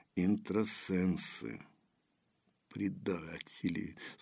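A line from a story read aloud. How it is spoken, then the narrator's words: Through gritted teeth. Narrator (Russian): сквозь зубы процедила Дарья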